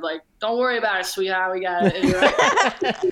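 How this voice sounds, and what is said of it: Put-on New York accent. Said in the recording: “The New York accent.”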